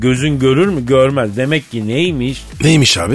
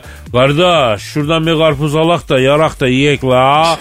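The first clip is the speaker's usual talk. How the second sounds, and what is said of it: Put-on regional Turkish accent. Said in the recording (Turkish): “Şiveli yakışıklı”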